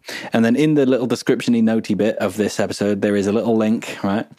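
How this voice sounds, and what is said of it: Northern English accent. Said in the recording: “That sounded so northern.”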